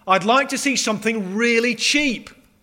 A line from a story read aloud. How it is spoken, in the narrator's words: whined